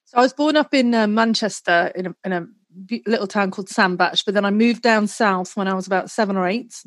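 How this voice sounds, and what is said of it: British English accent. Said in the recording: “Your voice is a bit of a giveaway. Your accent is a bit of a giveaway. You're from the UK.”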